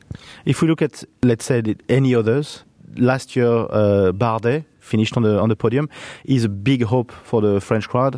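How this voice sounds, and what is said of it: French accent. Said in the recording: “you guess with my accent, he's also a big hope for me”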